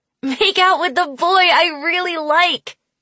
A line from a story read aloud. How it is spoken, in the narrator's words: I yelled